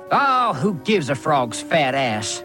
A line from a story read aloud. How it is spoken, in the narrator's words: He snarled at his own brother